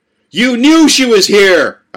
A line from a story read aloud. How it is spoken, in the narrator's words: I shouted at Penny